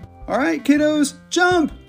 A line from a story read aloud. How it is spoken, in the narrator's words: Bubba's daddy and Maya's bonus mommy shouted together